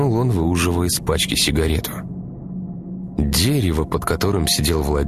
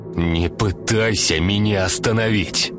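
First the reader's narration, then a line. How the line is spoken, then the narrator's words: Growl. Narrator (Russian): прорычал Артем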